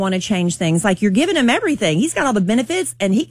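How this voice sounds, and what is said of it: Usual voice. Nothing is said of it.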